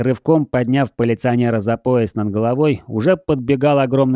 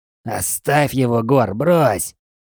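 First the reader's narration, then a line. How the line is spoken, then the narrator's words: Strained, breathless. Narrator (Russian): Сдавленно выдавил Джей на выдохе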